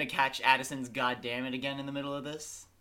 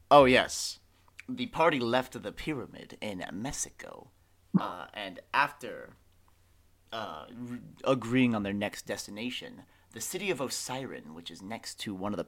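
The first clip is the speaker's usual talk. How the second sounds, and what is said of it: Narrator-style voiceover voice. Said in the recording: “do my voiceover voice”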